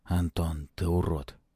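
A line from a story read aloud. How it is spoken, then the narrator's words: Quiet. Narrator (Russian): тихо проговорил Палыч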